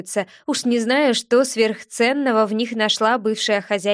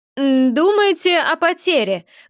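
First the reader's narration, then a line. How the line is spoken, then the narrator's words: Loud growl. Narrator (Russian): громко рыкнул Рота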